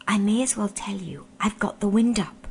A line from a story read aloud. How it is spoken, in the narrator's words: said Eustace in a whisper